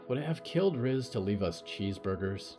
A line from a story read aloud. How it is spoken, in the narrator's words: Riot groaned